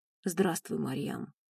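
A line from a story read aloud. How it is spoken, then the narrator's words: Hoarse greeting. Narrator (Russian): поздоровался хрипло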